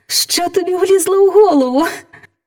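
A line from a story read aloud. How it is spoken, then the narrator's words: Laughing. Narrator (Ukrainian): засміялася принцеса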